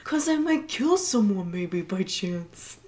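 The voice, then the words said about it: Magdalena impression. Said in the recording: “does an excellent Magdalena impression”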